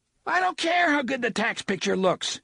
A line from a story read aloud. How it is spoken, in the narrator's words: he nearly screamed